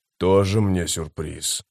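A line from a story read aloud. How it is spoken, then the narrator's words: Grumbling. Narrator (Russian): проворчал Маппо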